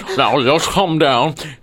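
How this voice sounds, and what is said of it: Thick, muffled character voice. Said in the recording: “You sound like a really fat guy eating a sandwich.”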